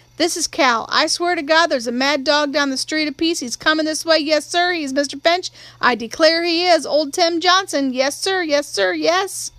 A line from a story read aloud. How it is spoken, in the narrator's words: she shouted